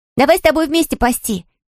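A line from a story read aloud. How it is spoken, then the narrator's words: Shouting. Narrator (Russian): кричала Мона Мацу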